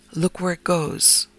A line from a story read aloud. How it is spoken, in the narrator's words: whispered